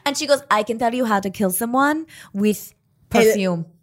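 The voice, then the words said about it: Put-on Russian accent. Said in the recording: “You can do the Russian accent.”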